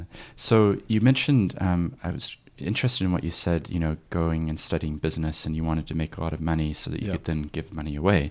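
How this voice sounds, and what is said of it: Non-New Zealand accent. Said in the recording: “you can hear my accent. I actually grew up in New Zealand, but have always had my accent.”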